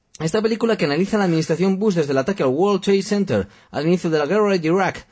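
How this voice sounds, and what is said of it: American accent. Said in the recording (Spanish): “ahora se me ha puesto acento americano”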